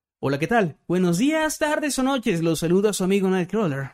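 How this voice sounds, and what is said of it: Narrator voice. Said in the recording (Spanish): “voz de narrador”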